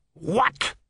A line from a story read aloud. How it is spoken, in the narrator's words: snapped